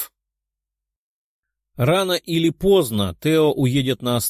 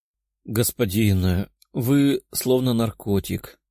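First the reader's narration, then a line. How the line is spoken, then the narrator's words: Contented purr. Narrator (Russian): промурлыкала удовлетворенная девушка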